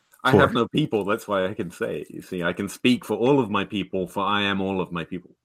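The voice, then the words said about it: Distinctive accent. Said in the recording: “that accent ... nice accents”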